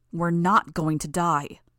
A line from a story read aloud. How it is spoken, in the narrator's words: I growled the words